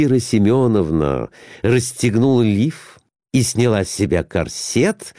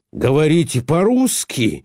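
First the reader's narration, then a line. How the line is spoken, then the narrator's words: Joyful question. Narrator (Russian): радостно спросил его Николай Иванович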